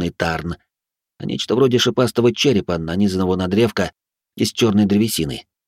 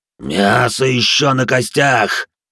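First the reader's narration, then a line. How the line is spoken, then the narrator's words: Growled reply. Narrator (Russian): прорычал в ответ пожиратель костей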